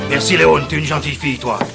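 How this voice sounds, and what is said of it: Character voice with funny accent. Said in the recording (French): “celui qui a un accent rigolo”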